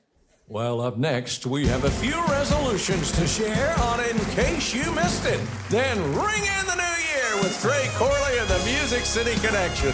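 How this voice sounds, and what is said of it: Announcer-style voice. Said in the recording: “He'll do an impression of an announcer”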